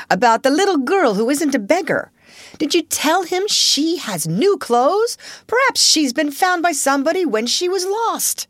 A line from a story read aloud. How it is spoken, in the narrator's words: Donald shouted again